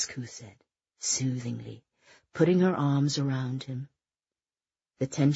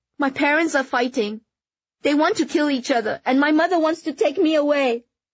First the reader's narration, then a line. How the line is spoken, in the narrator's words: breathlessly blurted out